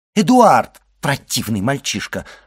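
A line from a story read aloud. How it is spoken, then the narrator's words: Woman exclaiming. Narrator (Russian): воскликнула госпожа де Вильфор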